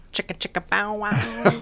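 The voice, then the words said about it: Deliberately bad comic impression. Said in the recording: “that was really bad. that was a really bad impression.”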